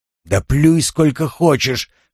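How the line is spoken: Roaring. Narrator (Russian): взревел он

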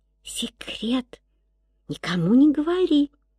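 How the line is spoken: Child whispering. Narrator (Russian): девочка шепнула

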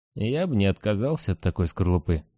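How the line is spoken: Sleepy mutter. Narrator (Russian): пробормотал я, борясь со сном

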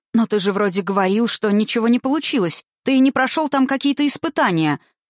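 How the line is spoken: Shouting from another room. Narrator (Russian): кричала уже из кухни

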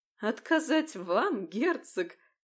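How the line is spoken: Laughing loudly. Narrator (Russian): расхохоталась леди Доминика

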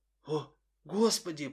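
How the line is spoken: Whisper. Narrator (Russian): прошептал кто-то

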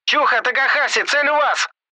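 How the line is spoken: Yelling. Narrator (Russian): Заорал

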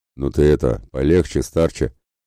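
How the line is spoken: Amused snort. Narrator (Russian): хмыкнул Ратибор

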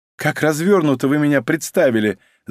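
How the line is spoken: Laughing. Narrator (Russian): засмеялась Соня

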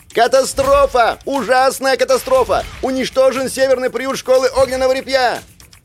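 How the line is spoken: Boy yelling loudly. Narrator (Russian): малец перевел дух, набрал полную грудь воздуха и завопил

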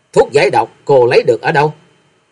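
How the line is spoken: Cold. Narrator (Vietnamese): Bạch Y La Sát lạnh lùng nói

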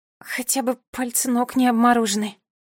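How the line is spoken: Muttered. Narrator (Russian): пробормотала

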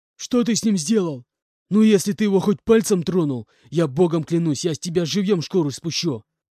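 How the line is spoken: Furious near-growling shout. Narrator (Russian): Исходя чуть ли не на звериный рык, кричал он на меня

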